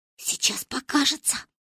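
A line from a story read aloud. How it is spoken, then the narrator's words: Whisper. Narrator (Russian): шепнула Манька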